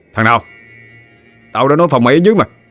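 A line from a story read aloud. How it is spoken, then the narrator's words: Angry shout. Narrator (Vietnamese): Bùi quát lên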